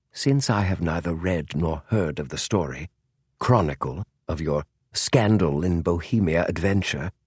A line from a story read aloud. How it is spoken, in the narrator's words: he said softly